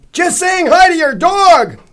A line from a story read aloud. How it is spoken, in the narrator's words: Zell bellowed, probably in relief